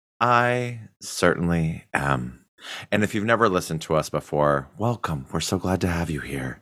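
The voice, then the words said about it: Low, gravelly, soothing ASMR voice. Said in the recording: “my soothing voice that speaks in a low gravel rabble ... your ASMR voice”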